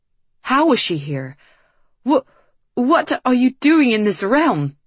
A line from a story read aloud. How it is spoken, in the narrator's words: Cedric finally stuttered